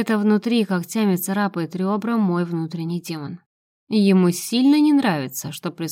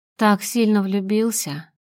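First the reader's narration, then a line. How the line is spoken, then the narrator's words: Calm question, man. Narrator (Russian): спокойно спрашивает он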